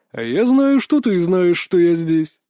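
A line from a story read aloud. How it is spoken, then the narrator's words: Laughing. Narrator (Russian): рассмеялся Рейк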